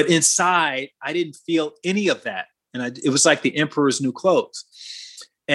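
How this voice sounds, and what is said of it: Usual voice. Nothing is said of it.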